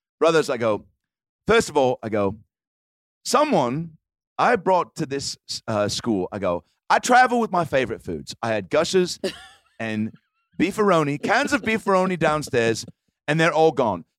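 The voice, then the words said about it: Put-on British accent. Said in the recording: “I had like a British accent.”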